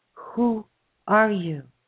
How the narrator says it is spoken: in a trembling, awed voice, in a half whisper, he said

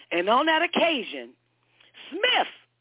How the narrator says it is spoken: screamed the shrewish voice from the screen

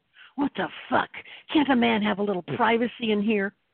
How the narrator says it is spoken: Glaring at him, he snarled

